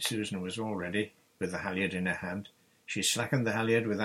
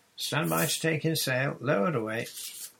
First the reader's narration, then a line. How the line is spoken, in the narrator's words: John called out